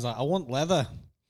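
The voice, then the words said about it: Poor northern English accent. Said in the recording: “that was a terrible northern accent”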